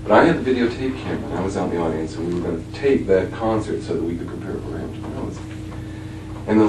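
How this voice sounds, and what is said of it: Usual voice. Nothing is said of it.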